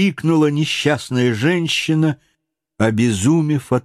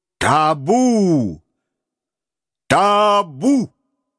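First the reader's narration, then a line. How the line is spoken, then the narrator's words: Thunderous shout over crowd. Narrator (Russian): покрывая шум толпы, он громовым голосом крикнул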